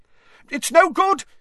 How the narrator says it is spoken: yelled another wizard

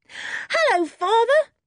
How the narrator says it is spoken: shouted George

